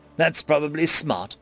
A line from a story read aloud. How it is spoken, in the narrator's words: Nine said, laughing